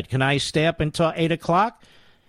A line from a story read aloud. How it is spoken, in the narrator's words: Mary asked breathlessly